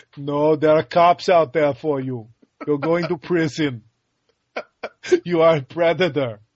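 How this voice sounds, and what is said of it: Bad Arnold Schwarzenegger impression. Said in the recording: “My Arnold is terrible... you're doing an impression of an impression”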